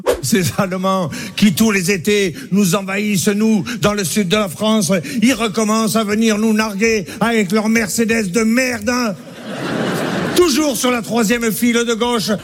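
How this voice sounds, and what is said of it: Mock German accent in French. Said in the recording (French): “se moquer de l'accent de nos voisins”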